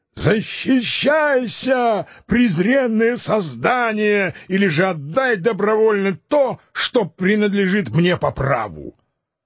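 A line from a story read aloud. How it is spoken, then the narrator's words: Furious shout. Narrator (Russian): Дон Кихот, не умеряя ярости своего натиска, крикнул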